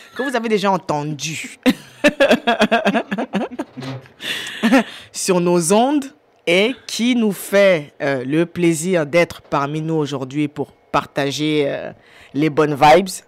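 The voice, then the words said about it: Put-on Cameroonian French accent. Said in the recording (French): “je prends mon dernier accent camerounais pour le dire”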